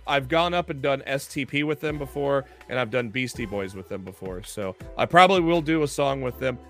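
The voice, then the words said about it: Hoarse, strained voice. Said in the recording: “my voice is shot... I've been sick and uh, I'm really hoarse, getting very hoarse”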